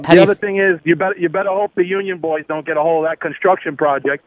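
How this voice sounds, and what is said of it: New York accent. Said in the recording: “you didn't lose your New York accent”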